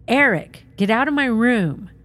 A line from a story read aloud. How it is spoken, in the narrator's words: she heard one of her daughters yelling